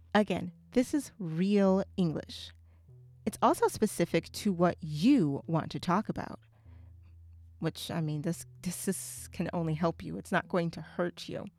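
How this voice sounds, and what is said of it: Southern American accent. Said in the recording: “an American from the South. Even I have a distinct accent.”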